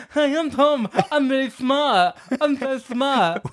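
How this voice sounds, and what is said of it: Imitates another person's voice, lisping. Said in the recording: “Do I sound like that? ... When did I get a lisp, by the way?”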